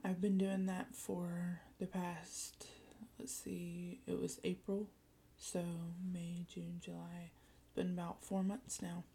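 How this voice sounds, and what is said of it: Slightly scratchy voice. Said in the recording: “my voice is a little scratchy. It's probably because it's pretty early in the morning.”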